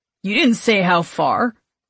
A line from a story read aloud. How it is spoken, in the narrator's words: Travis grumbles in response